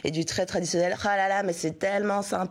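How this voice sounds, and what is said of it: Put-on French accent. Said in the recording (French): “j'ai pris un accent français”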